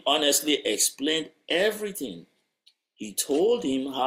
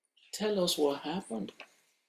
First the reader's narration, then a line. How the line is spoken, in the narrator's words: The CEO looked at him kindly and asked